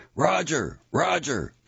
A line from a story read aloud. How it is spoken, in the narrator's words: shouted